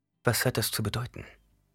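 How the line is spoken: Plain question. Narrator (German): fragte sie

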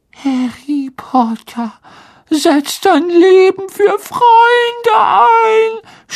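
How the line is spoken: Moaning, wistful enthusiasm. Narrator (German): stöhnte Dobby in einer Art wehmütiger Begeisterung

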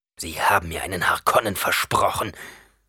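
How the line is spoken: Hissed in fury. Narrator (German): zischte Gurney außer sich vor Zorn

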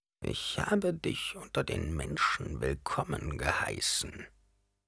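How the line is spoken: Old woman murmuring. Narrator (German): murmelte die ehrwürdige Mutter

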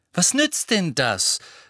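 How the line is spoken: Said loudly. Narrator (German): sagte Harry laut

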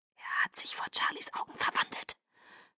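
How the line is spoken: Hissed. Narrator (German): zischte Edward

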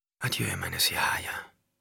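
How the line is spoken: Whisper. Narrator (German): wisperte

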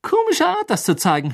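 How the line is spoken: Mocking. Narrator (German): höhnte Ron

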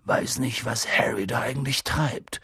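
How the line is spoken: Muttering. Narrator (German): murmelte Hagrid

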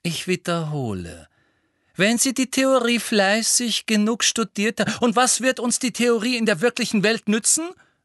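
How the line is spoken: Loud. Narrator (German): sagte Harry laut

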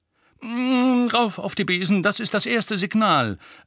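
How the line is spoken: Sharp. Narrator (German): sagte Lupin scharf

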